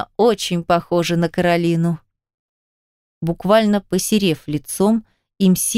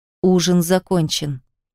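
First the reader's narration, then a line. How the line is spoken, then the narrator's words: Icy tone. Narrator (Russian): произнес таким ледяным тоном, что вздрогнули все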